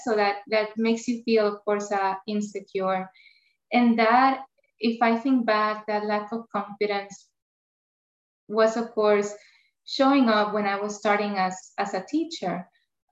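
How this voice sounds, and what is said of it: Spanish-accented English. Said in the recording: “I have an accent... because I grew up in Puerto Rico, Spanish is my first language”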